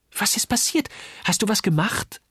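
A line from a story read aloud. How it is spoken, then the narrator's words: Excited question. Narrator (German): fragte Uli aufgeregt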